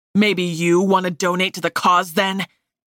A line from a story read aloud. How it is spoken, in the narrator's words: He asked angrily, and for a moment, it seemed like he'd actually lost control